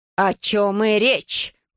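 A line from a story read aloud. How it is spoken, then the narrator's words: Through clenched teeth. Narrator (Russian): Процедила мачеха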